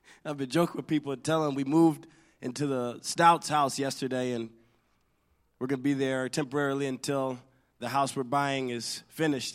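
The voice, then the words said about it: Strained, partly lost voice. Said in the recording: “my voice is struggling today ... I lost my voice”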